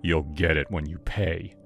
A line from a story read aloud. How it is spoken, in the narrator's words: he said, his tone menacing